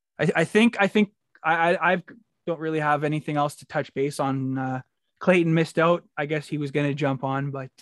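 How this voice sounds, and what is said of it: Hoarse, strained tired voice. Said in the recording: “losing my voice, so I'm talked out”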